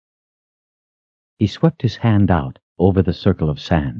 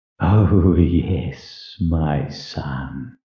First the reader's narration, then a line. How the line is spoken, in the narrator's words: he hissed